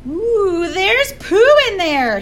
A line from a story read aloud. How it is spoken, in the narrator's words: he screamed